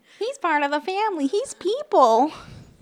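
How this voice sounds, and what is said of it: Imitates another person's voice. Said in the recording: “That's my impression of you.”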